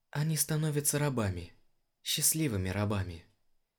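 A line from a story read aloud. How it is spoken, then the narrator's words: Quiet whisper. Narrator (Russian): тихо прошептала Анара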